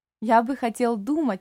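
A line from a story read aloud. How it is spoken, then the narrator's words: Joyful, old man. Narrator (Russian): радостно ответил старик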